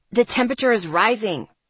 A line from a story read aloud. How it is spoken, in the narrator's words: Travis snapped